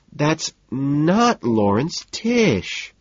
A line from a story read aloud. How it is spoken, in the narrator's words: Evelyn whines, genuinely upset